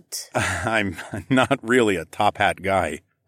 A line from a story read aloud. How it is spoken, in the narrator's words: I laughed